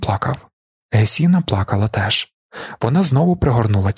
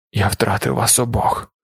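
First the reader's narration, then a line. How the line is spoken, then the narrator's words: Hoarse doctor. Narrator (Ukrainian): хрипко мовив лікар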